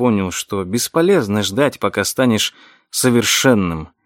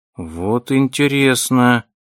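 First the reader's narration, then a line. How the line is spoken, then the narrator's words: Drawn out after pause. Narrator (Russian): протянул Вилли после долгой паузы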